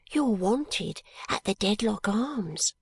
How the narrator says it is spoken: said Charlie in a whisper

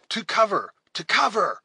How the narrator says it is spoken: cried Hawkeye

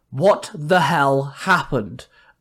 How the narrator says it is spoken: Adam grunted

